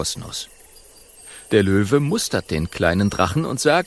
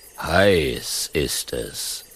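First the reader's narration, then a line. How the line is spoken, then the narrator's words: Lion's growl. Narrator (German): brummt der Löwe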